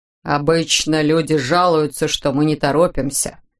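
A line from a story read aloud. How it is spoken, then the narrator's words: Grumbling inspector. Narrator (Russian): проворчал инспектор Пильгис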